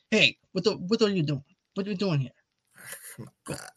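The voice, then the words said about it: Italian-American gangster accent impression. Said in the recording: “If you want to do an Italian impression, be like Rob De Niro.”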